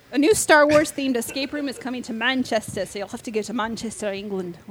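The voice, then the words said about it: Poor put-on English accent. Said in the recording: “Well, that was a terrible English accent. ... That was Liverpool.”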